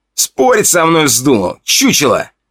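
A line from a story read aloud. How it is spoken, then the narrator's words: Growl. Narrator (Russian): прорычал Федя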